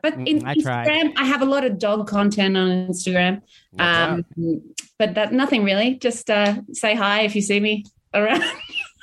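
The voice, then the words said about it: Australian accent. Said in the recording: “your beautiful Australian accent”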